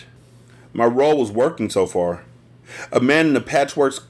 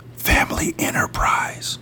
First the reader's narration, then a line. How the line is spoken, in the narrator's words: I whispered to him